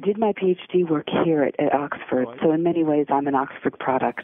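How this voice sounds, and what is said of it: American accent. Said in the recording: “I've managed to retain my American accent”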